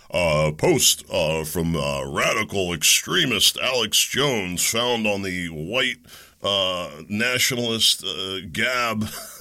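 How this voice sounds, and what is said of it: Sterile CNN-style news anchor voice. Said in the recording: “if I was going to report this like CNN ... I can't do my lefty impression today. Can't do my sterile media impression”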